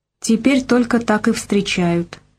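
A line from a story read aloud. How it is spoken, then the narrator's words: Quiet reply. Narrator (Russian): ответила она негромко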